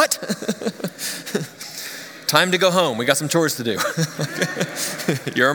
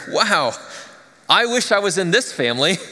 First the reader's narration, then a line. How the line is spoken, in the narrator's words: one of my kids, in their childish honesty, exclaimed